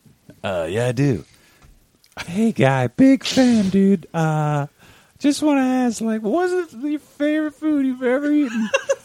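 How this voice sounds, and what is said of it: Weird put-on character voice. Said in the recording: “that is a cool voice ... that's a weird voice there”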